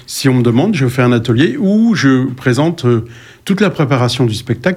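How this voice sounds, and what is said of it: Sharp regional eastern French accent. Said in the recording (French): “il a un accent un peu pointu, pas parisien”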